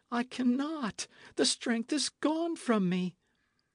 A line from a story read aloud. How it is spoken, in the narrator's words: she gasped